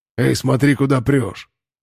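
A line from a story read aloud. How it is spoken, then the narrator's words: Angry growl. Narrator (Russian): рыкнул он, словно я налетел на него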